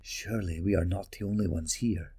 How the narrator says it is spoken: Nikeel whispered

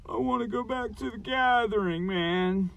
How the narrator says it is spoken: Schwam whined

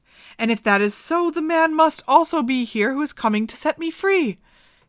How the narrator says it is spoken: she exclaimed

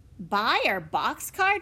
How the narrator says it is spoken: Jesse cried

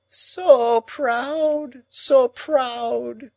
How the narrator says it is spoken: moaned Miss Havisham

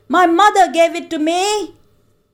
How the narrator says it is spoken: the boy shouted in triumph

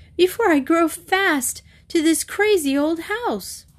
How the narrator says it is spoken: Katie half giggled, half sobbed

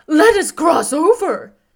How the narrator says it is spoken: cried the scarecrow

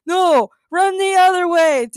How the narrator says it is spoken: Daniel and Daniela screamed

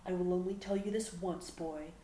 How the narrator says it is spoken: growled

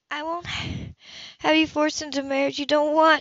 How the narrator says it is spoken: she said wearily

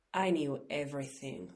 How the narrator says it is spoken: Sandy Slagle would insist fiercely later

